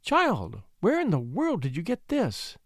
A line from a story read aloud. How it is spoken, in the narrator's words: she cried